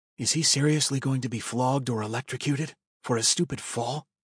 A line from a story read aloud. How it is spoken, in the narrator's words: I whispered to Centurion Braves